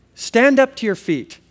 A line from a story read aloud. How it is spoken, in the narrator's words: called out